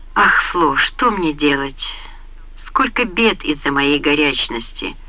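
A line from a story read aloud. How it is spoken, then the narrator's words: Sigh. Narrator (Russian): вздохнула Карина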